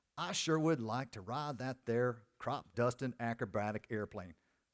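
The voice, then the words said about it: Put-on southern accent. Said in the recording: “my accent? That's my southern accent. That's the best I got.”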